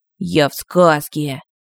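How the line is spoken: Stunned breathless voice. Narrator (Russian): потрясенно выдохнул

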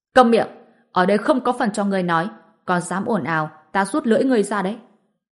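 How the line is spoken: Shouted command. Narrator (Vietnamese): Khánh Mộ Lam quát lên

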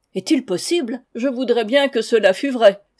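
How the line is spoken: Lord exclaiming. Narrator (French): s'écria le seigneur

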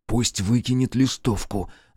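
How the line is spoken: Whispered. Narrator (Russian): зашептал Руднев

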